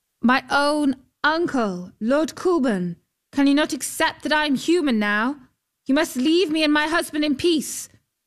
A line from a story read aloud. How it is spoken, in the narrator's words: called out